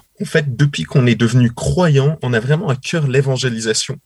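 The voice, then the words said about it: Swiss French accent. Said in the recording (French): “vous êtes suisse, hein, comme votre accent l'indique”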